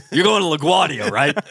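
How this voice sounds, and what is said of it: Put-on New York accent. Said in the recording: “New York accent... I know the cab driver.”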